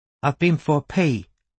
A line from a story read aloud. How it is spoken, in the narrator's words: said his nephew